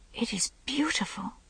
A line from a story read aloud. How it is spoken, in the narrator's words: whispered